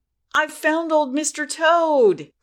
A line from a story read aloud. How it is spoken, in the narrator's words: cried Peter Rabbit